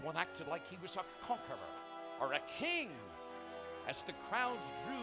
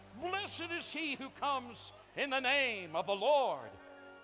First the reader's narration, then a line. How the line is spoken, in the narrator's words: others cried out